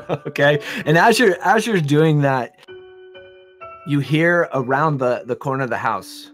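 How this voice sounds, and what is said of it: Usual voice. Nothing is said of it.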